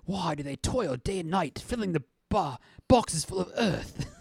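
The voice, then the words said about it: Put-on accent, convincingly done. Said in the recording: “You're doing too good of an accent”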